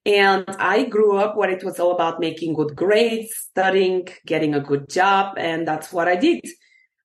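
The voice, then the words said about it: Eastern European accent. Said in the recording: “I'm Eastern European, as you can probably tell by my accent.”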